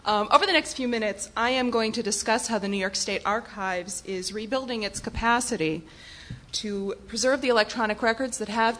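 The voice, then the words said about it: Strained, worn-out voice. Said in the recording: “I've been talking so much over the past 3 days that my voice is starting to go”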